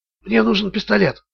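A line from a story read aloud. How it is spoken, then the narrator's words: Whisper. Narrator (Russian): шепнул Ричард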